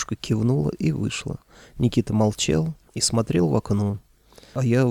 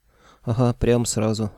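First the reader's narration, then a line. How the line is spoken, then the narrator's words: Scoffing. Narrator (Russian): хмыкнул я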